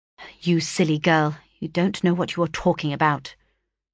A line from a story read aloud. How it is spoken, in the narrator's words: replied he gravely